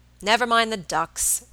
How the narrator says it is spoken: Robert said impatiently

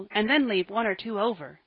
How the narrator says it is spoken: cried Joel

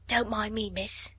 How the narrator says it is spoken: whispered Becky

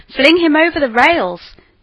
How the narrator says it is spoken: roared the mob

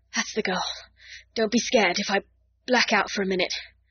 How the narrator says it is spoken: He whispered hoarsely

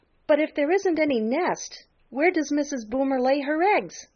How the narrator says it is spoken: cried Peter

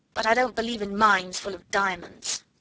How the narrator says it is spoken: snapped Lavinia

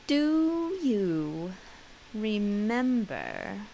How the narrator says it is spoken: He spoke slowly and with an effort

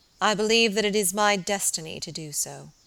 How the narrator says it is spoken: he said solemnly

